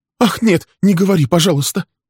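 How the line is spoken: Frightened cry. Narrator (Russian): испуганно вскрикнула она

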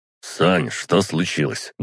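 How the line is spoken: Grumbled. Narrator (Russian): буркнул он

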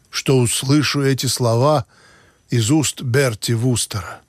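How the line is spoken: Sad. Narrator (Russian): печально сказал Бинго

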